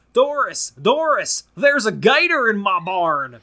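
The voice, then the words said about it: Put-on rural American Southern accent. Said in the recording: “I can't really do, like, a bumpkin British voice ... I do my bumpkin American voice ... if he were in the American South”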